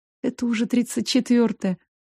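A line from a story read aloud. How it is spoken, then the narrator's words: Spellbound whisper. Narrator (Russian): Завороженно прошептала я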